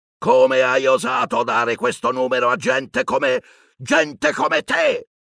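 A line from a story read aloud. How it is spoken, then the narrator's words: Spluttering shriek. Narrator (Italian): aveva strillato zio Vernon, sputacchiando saliva tutt'intorno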